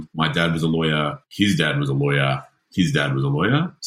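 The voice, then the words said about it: Posh private-school accent. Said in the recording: “ugly private school accent”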